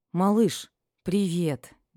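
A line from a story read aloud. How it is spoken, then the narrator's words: Relieved exhale. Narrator (Russian): облегченно выдохнула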